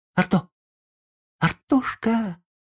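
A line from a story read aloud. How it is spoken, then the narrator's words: Trembling whisper. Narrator (Russian): позвал Сергей дрожащим шепотом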